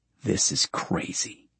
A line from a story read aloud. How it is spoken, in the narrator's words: Carlyle murmurs